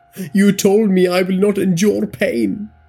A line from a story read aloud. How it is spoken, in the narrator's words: Ajay screamed